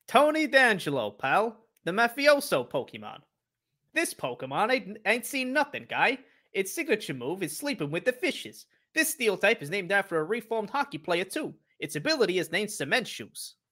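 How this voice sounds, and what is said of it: Italian mobster Pokedex voice. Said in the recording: “can do the voice and also the Pokedex voice in one ... An Italian Pokedex.”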